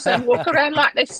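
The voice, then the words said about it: Posh British child-like voice, like the Queen. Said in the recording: “I had a British accent and my voice didn't change till I was quite a bit older ... I sounded like the Queen the entire time.”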